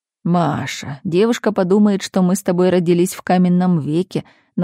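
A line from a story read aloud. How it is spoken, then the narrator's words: Mocking. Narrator (Russian): насмешливо проговорил Константин Сергеевич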